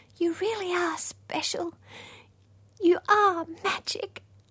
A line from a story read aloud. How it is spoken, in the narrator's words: she whispered